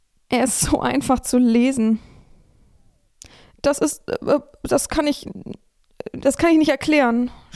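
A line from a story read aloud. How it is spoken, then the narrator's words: Stammering, cracked voice. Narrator (German): stammelte Tobias, seine Stimme brüchig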